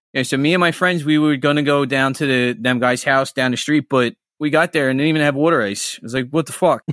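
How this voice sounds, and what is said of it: Strong Philadelphia accent. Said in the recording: “can you do a like strong Philly accent?”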